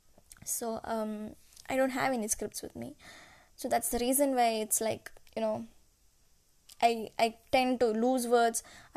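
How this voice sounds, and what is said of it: Non-native English accent. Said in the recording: “I'm not a English speaking person. So, you know, there's a problem in my accents also”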